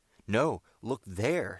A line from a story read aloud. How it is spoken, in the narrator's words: shouted Ned at the top of his voice